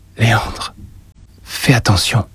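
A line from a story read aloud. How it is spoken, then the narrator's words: Murmured. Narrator (French): murmura-t-elle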